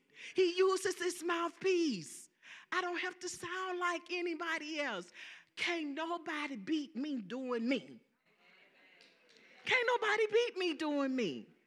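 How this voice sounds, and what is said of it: Southern American accent. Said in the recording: “I got a Southern accent... you got a Southern accent... this Southern accent”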